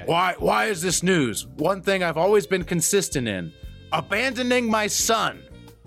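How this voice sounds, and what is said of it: Imitates another person's voice. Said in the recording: “I'm gonna try to do a Doc Rivers impression.”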